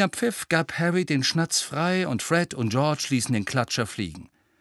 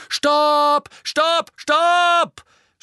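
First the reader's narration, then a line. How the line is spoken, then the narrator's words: Shouting. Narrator (German): schrie Angelina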